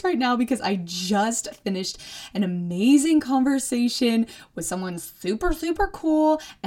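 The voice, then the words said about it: Really excited voice. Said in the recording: “speaking in a really excited voice”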